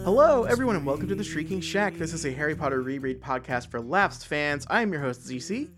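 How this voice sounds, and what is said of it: Congested voice from a cold. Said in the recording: “you can probably hear it in my voice. I've got a cold. ... I'm a little bit under the weather.”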